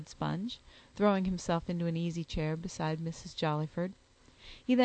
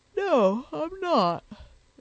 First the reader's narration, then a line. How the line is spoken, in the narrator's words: said Sponge, yawning again